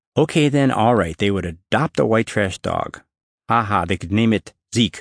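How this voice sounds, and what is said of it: Usual voice. Nothing is said of it.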